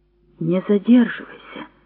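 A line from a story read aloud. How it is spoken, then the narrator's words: Quiet request. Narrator (Russian): тихо попросил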